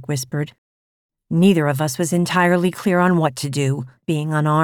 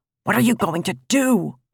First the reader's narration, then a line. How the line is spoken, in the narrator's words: Martin hissed